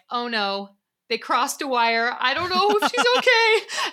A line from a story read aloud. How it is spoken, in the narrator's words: I yelled